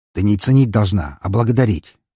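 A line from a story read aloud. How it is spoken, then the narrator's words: Sharp correction. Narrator (Russian): довольно резко поправил он ее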